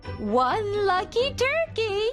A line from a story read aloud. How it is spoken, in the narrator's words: gasped Nan